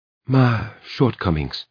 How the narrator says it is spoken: Her voice sank, almost inaudibly, as she said

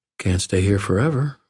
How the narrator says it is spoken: I replied

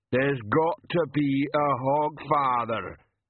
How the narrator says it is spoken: Banjo rumbled

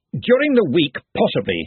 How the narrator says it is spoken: he snapped

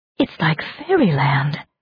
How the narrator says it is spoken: breathed Suki

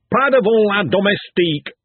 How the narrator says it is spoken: snapped the lecturer

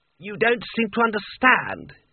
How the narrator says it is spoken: he rasped

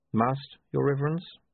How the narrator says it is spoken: he said calmly

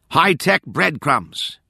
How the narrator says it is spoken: Nora shouted

